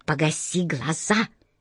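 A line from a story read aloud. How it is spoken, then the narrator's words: Quiet sharp rebuke. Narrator (Russian): негромко прикрикнула хозяйка таверны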